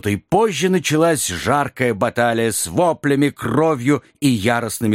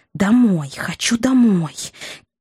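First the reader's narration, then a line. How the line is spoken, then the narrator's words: Irritated muttering. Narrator (Russian): Леди Щербатова раздраженно бормоча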